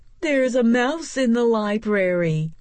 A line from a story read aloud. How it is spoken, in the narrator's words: another person hollered